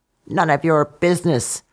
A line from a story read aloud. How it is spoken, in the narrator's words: croaked the frog